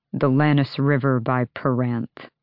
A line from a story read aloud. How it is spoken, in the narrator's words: Adian murmured